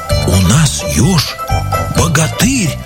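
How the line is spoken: Frightened whisper. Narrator (Russian): шепотом со страху говорили звери

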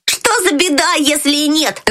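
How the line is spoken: Shouted. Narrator (Russian): закричал Фриц

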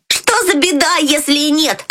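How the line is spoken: Shouting. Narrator (Russian): закричал Фриц

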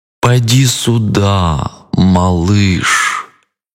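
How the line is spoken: Drawling. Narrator (Russian): протянул крокодил

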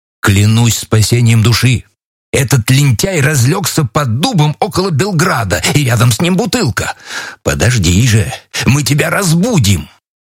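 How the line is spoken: Exclamation, archer. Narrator (Russian): Мой честный стрелок воскликнул

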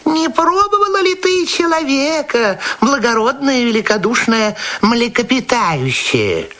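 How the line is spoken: Small sly voice. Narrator (Russian): маленькая хитренькая рыбка сказала ему маленьким хитреньким голосом

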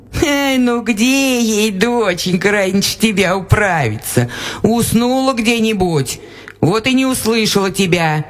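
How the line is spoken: Laughing peasant woman. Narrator (Russian): засмеялась баба

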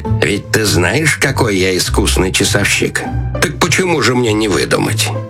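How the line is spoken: Quiet, strange laugh, councillor. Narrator (Russian): советник, засмеявшись каким-то особенно странным смехом, тихо сказал

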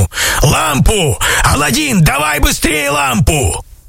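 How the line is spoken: Shout. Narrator (Russian): крикнул ему

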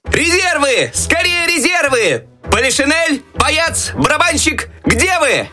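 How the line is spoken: Desperate shouting for help. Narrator (Russian): Так отчаянно кричал Щелкунчик, надеясь на помощь еще оставшихся в шкафу войск

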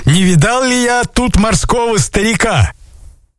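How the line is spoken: Shouting. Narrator (Russian): купцы закричали

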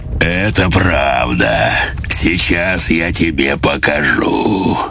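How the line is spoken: Pleased bass reply. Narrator (Russian): Он с удовольствием ответил басом

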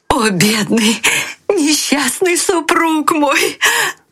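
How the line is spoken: Crying out. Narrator (Russian): кричала она

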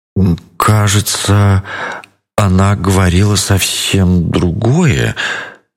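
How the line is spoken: Confused drawl. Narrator (Russian): протянул пятнистый ягуар, но он был сбит с толку

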